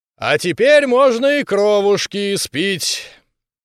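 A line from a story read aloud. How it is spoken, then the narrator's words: Loud. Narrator (Russian): Вовка громко сказал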